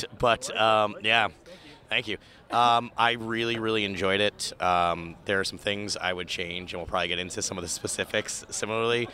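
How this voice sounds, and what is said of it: Voice sounds rough and off. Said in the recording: “my voice is a little wonked”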